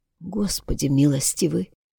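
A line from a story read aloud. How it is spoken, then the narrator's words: Whisper. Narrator (Russian): прошептала она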